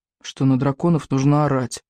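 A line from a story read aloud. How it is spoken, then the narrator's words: Gloomy. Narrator (Russian): мрачно ответил Икинг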